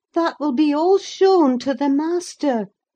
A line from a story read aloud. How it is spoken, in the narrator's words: exclaimed